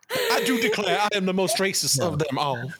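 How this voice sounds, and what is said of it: Put-on Old South accent. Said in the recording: “you have to talk in a uh, ... Gone with the Wind accent”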